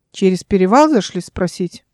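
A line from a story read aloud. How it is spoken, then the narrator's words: Unfriendly tone. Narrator (Russian): ответил ему недобрым тоном один из пришедших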